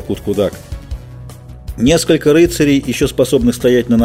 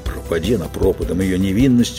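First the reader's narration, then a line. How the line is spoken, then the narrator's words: Grumbled. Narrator (Russian): буркнул Геральт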